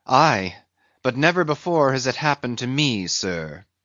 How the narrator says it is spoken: said the pale mate, gloomily

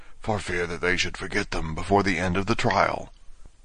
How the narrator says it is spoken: the griffin whispered in reply

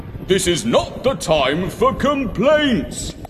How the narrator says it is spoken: shouted back Father Christmas

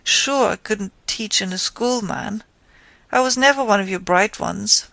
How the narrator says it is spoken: he added with a half laugh

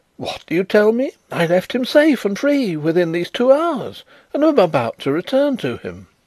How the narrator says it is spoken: Struck with consternation, the old gentleman exclaimed

